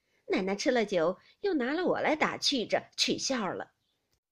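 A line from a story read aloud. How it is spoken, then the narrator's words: Laughing. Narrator (Chinese): 平儿笑道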